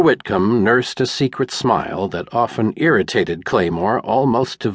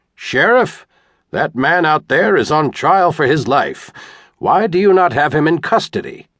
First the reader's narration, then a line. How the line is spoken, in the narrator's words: declared, loudly enough to hear